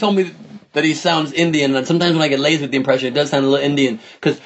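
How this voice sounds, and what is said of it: Usual voice. Nothing is said of it.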